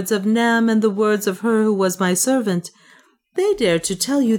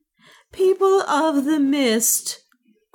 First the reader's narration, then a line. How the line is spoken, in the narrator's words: cried Juana